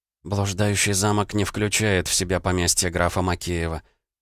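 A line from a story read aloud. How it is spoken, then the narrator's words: Mutter. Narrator (Russian): пробормотала Анастасия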